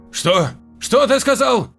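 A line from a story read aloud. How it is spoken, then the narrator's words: Shouting. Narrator (Russian): закричал Рейхард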